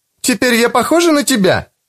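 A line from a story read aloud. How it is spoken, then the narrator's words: Exclamation. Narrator (Russian): воскликнула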